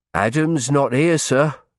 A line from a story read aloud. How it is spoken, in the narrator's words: Daniel said anxiously